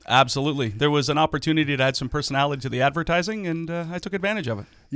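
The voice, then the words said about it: Booming radio-announcer voice. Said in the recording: “you are a booming radio voice”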